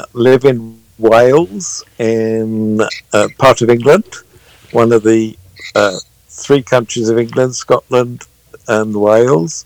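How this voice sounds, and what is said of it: London Cockney accent. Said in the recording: “I've kept my original London accent, so this is as near to Cockney as you're going to hear on the American radio”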